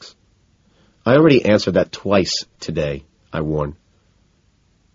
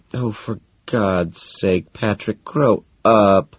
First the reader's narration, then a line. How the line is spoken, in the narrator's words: Evelyn moans